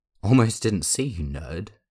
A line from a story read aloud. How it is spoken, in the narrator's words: Jeff exclaimed